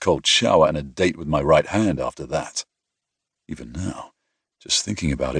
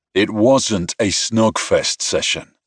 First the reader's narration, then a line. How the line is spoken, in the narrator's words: I growled